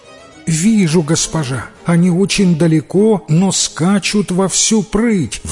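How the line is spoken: Excited exclamation. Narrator (Russian): воскликнула пастушка

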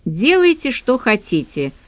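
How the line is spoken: Dry. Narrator (Russian): сухо произнесла я

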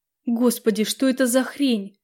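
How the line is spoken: Terrified strained words. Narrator (Russian): Чуть не икая от страха, выдавила я

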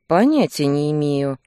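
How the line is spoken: Snorting grunt. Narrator (Russian): хмыкнул Кир

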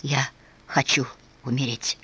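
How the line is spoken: Feverish whisper. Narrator (Russian): Ответом стал горячечный шепот

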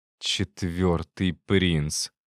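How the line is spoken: Hissed. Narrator (Russian): прошипела она

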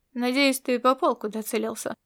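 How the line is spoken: Cool tone. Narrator (Russian): сказал он прохладным тоном

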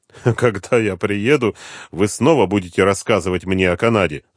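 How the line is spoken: Laughing. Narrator (Russian): засмеялся Дронго

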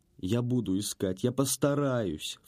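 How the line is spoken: Sob. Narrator (Russian): всхлипнула Марью уже в дверях

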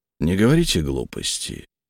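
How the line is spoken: Quiet. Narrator (Russian): тихо сказал Хольц

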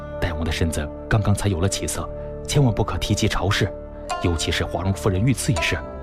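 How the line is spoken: Low urgent instruction. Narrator (Chinese): 低声嘱咐道

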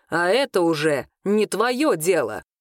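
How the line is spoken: Growling. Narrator (Russian): рыкнул Арвин

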